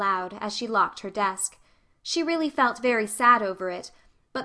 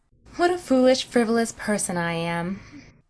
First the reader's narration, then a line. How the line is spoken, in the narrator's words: she sighed